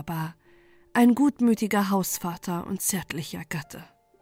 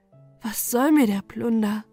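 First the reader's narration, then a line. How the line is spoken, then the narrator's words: Sighing, tearful, to herself. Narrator (German): sprach sie oft zu sich selbst, daran Seufzer und Tränen hangen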